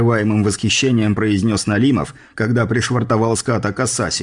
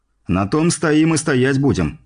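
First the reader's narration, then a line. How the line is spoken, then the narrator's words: Reply with a snort. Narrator (Russian): хмыкнув, ответил я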